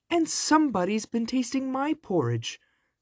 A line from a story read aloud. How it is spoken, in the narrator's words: squealed the baby bear